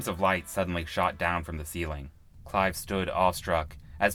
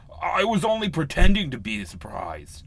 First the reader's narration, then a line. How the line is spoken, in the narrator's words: he yelled back